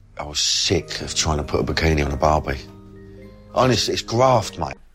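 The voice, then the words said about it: Jokey, exaggerated Cockney accent. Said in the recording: “he talks in that Cockney accent, but like that sort of jokey Cockney accent that isn't really Cockney”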